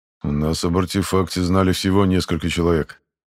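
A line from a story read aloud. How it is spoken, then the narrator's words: Gloomy. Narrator (Russian): мрачно отвечает старший караванщик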